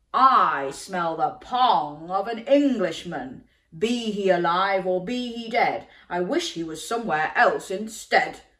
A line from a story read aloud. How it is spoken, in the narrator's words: roared the giant